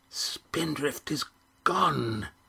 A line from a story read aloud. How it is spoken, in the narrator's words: hissed Auron